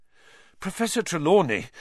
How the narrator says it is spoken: Harry panted

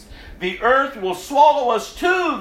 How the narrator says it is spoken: they cried

